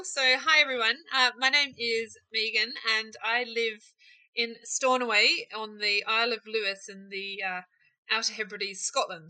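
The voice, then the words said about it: New Zealand accent. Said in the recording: “As you can tell from my accent, I'm not a local girl. Born and bred in New Zealand”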